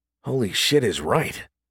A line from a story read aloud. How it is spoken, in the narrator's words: Reach mumbled to himself